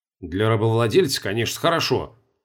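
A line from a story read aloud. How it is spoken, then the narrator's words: Grumbled. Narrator (Russian): пробурчал Чертанов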